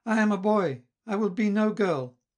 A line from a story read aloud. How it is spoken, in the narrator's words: Mignon cried with great vivacity